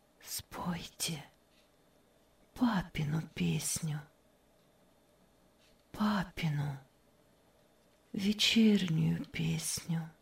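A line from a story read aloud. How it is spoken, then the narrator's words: Sudden barely audible request. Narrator (Russian): Вдруг чуть слышно попросила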